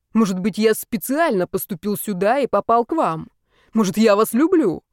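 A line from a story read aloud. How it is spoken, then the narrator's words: Mock-dramatic shout. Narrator (Russian): патетически выкрикнул Степа, явно дурачась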